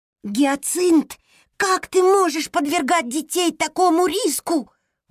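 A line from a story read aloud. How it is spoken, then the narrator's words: Shouted, hamster. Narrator (Russian): выкрикнул хомячок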